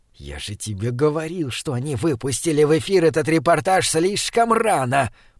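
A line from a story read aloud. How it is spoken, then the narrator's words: Hoarse, thin hiss. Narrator (Russian): прошипел Высокий хриплым тонким голосом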